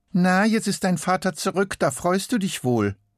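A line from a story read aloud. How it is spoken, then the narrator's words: Calling down. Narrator (German): ruft sie zu ihm hinunter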